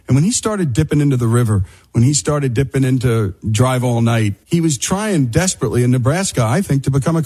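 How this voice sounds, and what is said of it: Northern New Jersey accent. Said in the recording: “As you can tell from my accent, I grew up in New Jersey, northern New Jersey, right by New York City”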